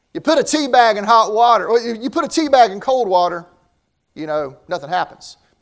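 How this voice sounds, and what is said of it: Southern US accent. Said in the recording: “I grew up in the South... Never will be Northern, man. My accent just gives it away... Your accent gives it away. I said, North Carolina, you got me.”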